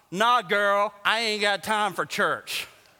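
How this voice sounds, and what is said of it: Put-on voice of a dismissive guy. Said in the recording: “my impersonation. How was that? One to ten, how was that? Ten?”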